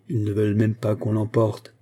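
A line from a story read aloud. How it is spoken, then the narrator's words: Growled. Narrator (French): gronda Bourras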